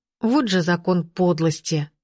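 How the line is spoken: Continued grumbling. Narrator (Russian): продолжала ворчать

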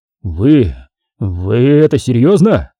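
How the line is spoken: Lieutenant forcing words out. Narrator (Russian): наконец выдавил из себя лейтенант

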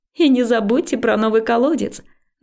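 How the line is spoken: Added while laughing. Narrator (Russian): добавила я, продолжая смеяться

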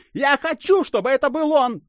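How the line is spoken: Hysterical emphatic shriek. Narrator (Russian): Истерично взвизгнула она с упором на слово

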